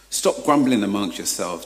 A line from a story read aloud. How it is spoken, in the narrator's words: Jesus answered